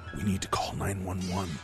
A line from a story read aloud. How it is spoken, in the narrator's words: I mumbled